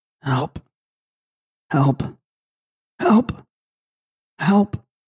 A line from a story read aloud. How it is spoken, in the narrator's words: She can but in a hoarse, faint whisper cry